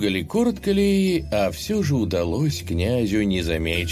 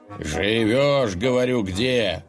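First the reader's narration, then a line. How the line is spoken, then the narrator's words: Menacing growl, stump. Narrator (Russian): с угрозой прорычал пень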